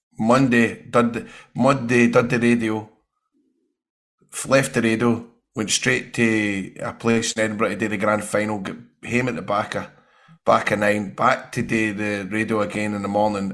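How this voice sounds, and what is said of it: Unwell, under-the-weather voice. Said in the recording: “So by Wednesday I was dying, still dying. I'm still a wee bit, can you feel it? You can hear it in my voice, and I'm a wee bit, I'm not exactly 100%.”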